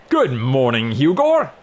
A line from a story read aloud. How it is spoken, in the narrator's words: The booming voice